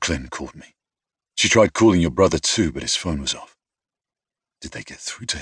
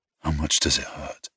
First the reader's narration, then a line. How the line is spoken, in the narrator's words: I asked quietly